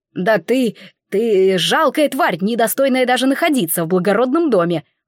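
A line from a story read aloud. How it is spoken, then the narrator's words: Indignant shout. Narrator (Russian): возмущенно выкрикнул барон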